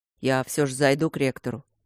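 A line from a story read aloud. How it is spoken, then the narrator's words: Deep bass. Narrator (Russian): пробасил Матвей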